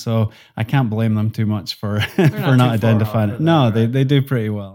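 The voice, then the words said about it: Mild Scottish accent. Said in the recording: “my accent has declined over time ... they will often ask if I'm Irish ... my accent is a mixture of Highland Scottish and Lowland Scottish, which ends up being pretty similar to a Northern Irish accent”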